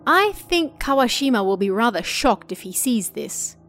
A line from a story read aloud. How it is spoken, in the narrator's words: he said